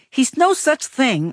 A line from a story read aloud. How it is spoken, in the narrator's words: I yelled